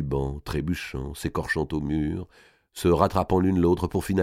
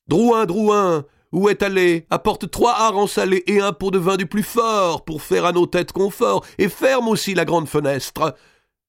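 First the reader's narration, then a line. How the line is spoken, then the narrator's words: Roaring. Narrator (French): C'était un rugissement que poussait alors Monseigneur Robert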